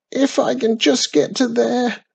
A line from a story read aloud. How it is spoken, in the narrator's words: croaked hopefully